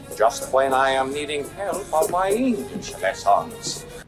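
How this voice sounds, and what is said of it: Foreign Dracula-like villain accent. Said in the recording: “You need help with that accent ... he's supposed to be German. He's supposed to be German, but the movie made him Italian. He sounds like Dracula right here. ... he don't sound Italian or German.”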